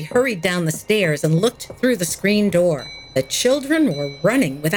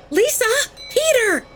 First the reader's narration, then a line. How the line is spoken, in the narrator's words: she screamed